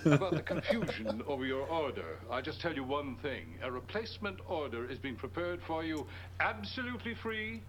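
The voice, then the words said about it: Odd hybrid American-British accent. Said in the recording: “What is this accent? It's American? ... It's like a weird American British. ... Is it Clark Gable? Or is it like Mediterranean? ... It's not Irish. ... It's a hybrid. ... But it's not really Irish, though. ... It's like shitty Irish.”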